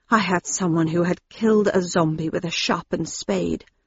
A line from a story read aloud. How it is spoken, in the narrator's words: he said quietly through his fingers